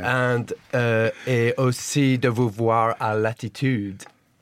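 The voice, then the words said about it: French with exaggerated French accent. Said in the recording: “But in an English accent, in my English accent ... that was a little bit too French ... Way too French”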